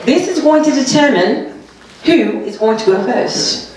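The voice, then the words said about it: Put-on British accent. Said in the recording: “let me do it in my British accent ... Yes, I have another accent.”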